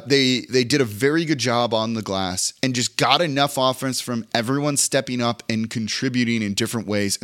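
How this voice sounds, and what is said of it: Hoarse, strained voice. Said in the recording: “As I'm losing my voice here, as I'm fighting off being sick”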